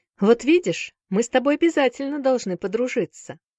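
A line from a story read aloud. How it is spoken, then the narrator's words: Cheerful boy's voice. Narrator (Russian): весело сказал хромой мальчик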